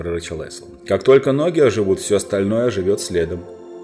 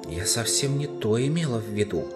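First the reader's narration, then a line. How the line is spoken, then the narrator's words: Whispered. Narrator (Russian): шепнула сестре Сьюзан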